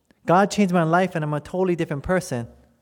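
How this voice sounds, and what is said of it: Hawaiian pidgin accent. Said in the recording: “you talk exactly the same, with a pidgin accent, right, from Hawaii”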